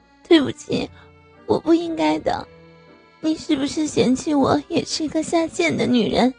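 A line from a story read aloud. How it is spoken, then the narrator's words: Awkward half-crying laugh. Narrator (Chinese): 刘春林尴尬的哭笑道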